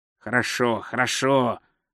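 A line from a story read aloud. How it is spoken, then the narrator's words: Gloomy. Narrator (Russian): мрачно сказал Кздра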